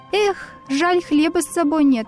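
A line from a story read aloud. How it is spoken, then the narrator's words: Sighing. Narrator (Russian): вздохнул Паша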